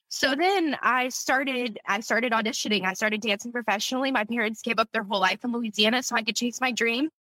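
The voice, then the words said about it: Choked-up, emotional voice. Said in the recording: “getting choked up ... it's hitting me real hard today”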